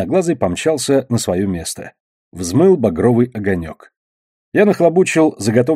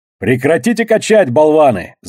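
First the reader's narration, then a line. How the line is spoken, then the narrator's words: Bellow. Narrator (Russian): заорал я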